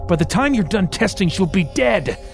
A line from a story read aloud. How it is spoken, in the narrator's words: Merrick shouted